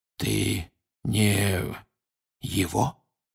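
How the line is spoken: Barely audible, lips still. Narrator (Russian): еле слышно проговорил Крауч, почти не шевеля губами

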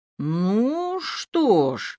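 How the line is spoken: Drawling. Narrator (Russian): протянул он

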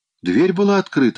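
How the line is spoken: Exclaiming. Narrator (Russian): воскликнул Ронни

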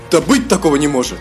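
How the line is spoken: Disbelieving exclamation. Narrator (Russian): Не веря собственным глазам, воскликнул Эзраэль

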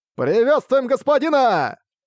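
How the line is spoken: Shout, then chorus. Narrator (Russian): Закричал один человек, и все остальные тут же хором подхватили этот клич

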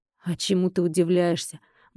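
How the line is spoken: Gruff muttering man. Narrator (Russian): буркнул мужчина

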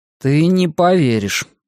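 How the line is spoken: Gloomy reply. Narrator (Russian): мрачно ответил он

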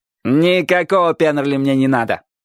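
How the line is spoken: Cheerful interruption. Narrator (Russian): весело перебил его первый седок

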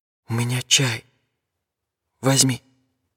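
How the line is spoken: Whispered. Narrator (Russian): прошептала

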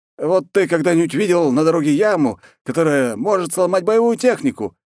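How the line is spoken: Loud indignation. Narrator (Russian): громко возмущался

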